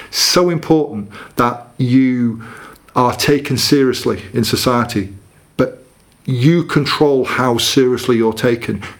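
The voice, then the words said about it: General northern English accent. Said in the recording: “what I call my sort of just general northern accent”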